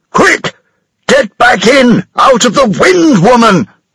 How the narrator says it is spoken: he shouted

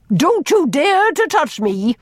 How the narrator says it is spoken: she almost shouted

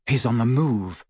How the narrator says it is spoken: he said quietly to Ron and Hermione

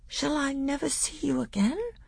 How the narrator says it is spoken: said Caspian in a quavering voice

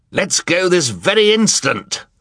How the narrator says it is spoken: Sir shouted

